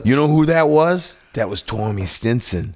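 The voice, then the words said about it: Put-on Boston accent. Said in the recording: “How's the accent? Is it better? ... very Boston. ... Still very Boston.”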